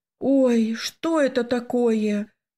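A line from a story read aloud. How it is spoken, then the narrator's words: Exclaiming, holding back tears. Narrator (Russian): воскликнула я, едва сдерживая слезы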